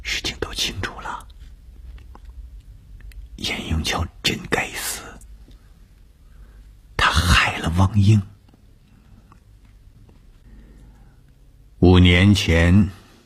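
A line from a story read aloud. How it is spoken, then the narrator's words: Soft murmur. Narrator (Chinese): 董峰……轻声地说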